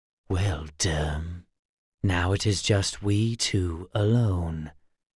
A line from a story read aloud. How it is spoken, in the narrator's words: he whispered